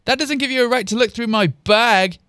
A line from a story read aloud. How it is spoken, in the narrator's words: yelled Anthem